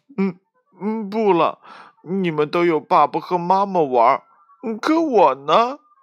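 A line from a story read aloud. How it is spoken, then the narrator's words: Sad crying. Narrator (Chinese): 他伤心的哭了起来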